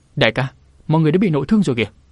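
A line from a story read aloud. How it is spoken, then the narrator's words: Alarmed cry. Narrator (Vietnamese): Nàng cả kinh kêu lên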